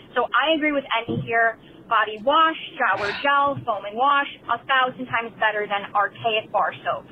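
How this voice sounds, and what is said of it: New York accent. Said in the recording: “that New York accent”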